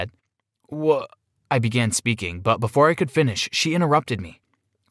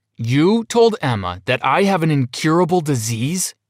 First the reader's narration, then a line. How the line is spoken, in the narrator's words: I bellowed